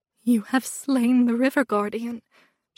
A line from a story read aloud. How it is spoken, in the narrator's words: she whispered at me